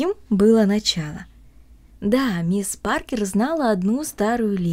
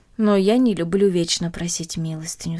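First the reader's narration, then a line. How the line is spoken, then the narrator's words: Plain. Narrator (Russian): сказала она матери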